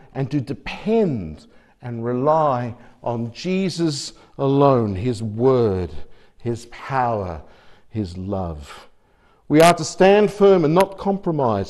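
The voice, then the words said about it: Australian accent. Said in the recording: “living in Australia, yes, that's where the accent is from”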